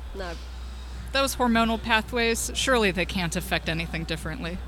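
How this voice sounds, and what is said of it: Deadpan sarcasm in a monotone. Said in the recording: “said with all sarcasm. ... I speak in sort of a monotone, so you sort of have to pick up from context when ... I'm being a little ... sarcastic.”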